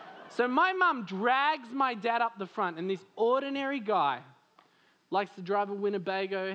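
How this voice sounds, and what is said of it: Usual voice. Nothing is said of it.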